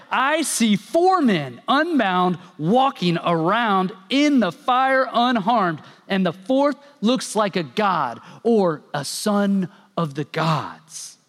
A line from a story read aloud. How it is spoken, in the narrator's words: Nebuchadnezzar shouted